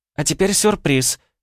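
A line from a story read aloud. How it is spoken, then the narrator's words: Joyful announcement. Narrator (Russian): радостно оповестила всех Ванда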